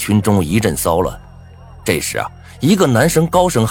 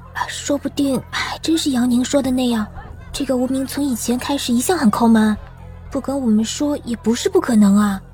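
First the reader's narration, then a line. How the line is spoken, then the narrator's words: Girl muttering quietly. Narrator (Chinese): 人群中有个女生小声嘀咕道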